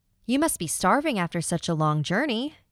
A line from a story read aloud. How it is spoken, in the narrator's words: cried